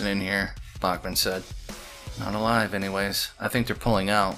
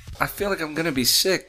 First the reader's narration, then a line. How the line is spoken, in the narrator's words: Shayla cried